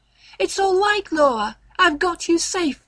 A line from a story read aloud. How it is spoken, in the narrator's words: I ... cried